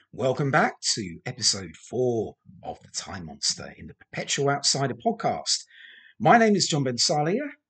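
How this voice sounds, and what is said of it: Slightly croaky voice. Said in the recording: “my voice is going a little bit croaky, actually”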